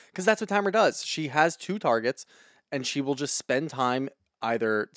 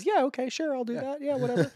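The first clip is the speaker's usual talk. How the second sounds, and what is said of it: Impression of Vicky. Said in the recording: “good Vicky impression”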